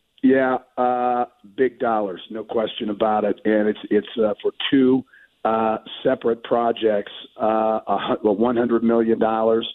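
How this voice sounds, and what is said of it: Congested voice from a cold. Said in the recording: “apologize for my voice. I've had a little head cold here for a while”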